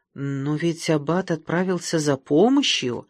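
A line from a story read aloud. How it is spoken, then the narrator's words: Timid objection. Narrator (Russian): робко возразила одна из дам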